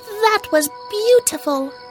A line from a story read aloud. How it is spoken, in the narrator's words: exclaimed Bits